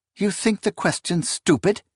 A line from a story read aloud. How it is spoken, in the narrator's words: Esmanette snapped